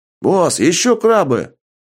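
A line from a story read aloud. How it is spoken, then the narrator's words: Soldier's exclamation. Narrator (Russian): воскликнул один из пехотинцев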